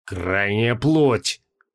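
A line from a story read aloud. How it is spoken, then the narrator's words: Breathless exhale. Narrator (Russian): выдохнул Моргио Мороз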